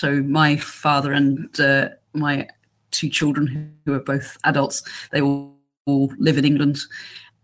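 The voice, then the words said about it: English accent. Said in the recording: “as you can tell from my accent, I'm English.”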